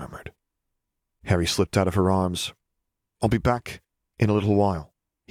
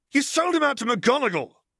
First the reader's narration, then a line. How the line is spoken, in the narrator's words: Nev yelled